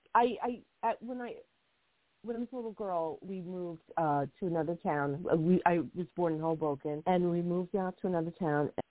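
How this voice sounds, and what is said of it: Strained, hoarse voice. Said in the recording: “I'm losing my voice. I've been talking so much.”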